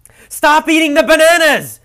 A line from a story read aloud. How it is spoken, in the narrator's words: yelled Quinn